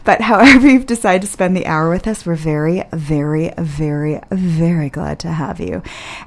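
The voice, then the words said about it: Sultry radio-host voice. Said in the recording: “I'm feeling almost giddy about using my sexy radio voice right now”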